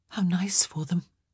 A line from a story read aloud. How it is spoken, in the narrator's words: Sophie murmured, even though it felt like her heart was strangling